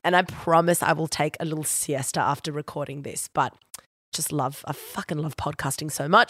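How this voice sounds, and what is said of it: Husky, breathless congested voice. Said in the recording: “out of breath ... dealing with a head cold and my voice is a bit huskier than normal”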